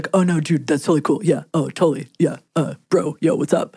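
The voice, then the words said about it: Low-pitched narrow-range bro voice. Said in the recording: “men ... will go down in pitch and also have as minimal as a pitch range as possible ... Your impression. That was phenomenal.”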